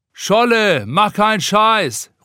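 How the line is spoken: Someone calling from above. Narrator (German): ruft einer von oben

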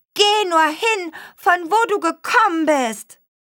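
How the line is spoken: Hare calls out. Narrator (German): rief der Hase

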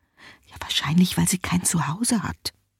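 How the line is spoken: Whisper. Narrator (German): flüstert die Mutter

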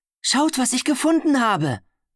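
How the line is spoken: Excited call. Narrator (German): rief aufgeregt

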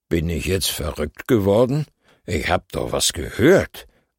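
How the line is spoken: Man muttering. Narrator (German): murmelt der Mann

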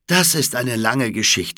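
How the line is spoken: Plain. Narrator (German): sagte der Mann

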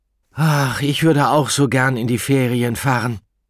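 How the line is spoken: Sighing. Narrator (German): seufzte Paola Bergeramo

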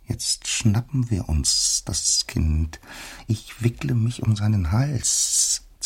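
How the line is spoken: Hissing. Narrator (German): zischte die Erste

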